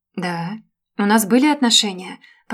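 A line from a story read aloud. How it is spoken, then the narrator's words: Calm measured tone. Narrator (Russian): продолжал говорить Женя все тем же спокойным размеренным тоном, как с обкуренной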